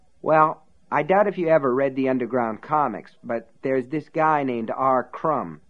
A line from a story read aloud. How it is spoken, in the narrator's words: Ace said